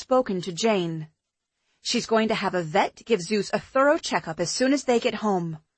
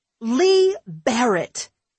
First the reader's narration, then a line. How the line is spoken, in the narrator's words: he exclaimed